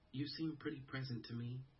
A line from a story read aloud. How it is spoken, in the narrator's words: Sophie said gently